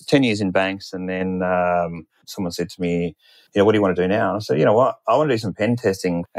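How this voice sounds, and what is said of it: Australian accent. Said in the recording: “in Australian banks, of which you could probably tell from my accent.”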